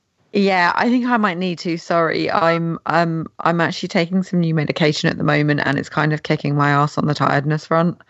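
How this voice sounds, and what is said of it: Tired, failing hoarse voice. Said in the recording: “very tired ... my voice is now just going completely, and I'm like dying basically”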